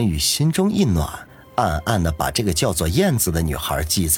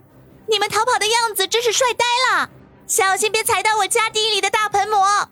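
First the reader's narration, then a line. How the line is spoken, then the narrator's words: Calling out from behind. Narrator (Chinese): 燕子在他的身后喊道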